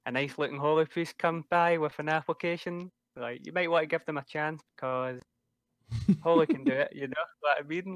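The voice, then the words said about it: Strong Scottish accent. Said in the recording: “slowing down your accent rampantness ... in pure Scottish”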